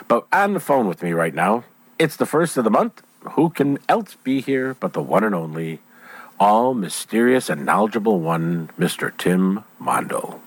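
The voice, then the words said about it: Deep husky congested voice. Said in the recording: “I'm doing my best Barry White imitation right now because I've picked up a little bit of a cold. So, of course, it's going to sit in, you know, the throat area”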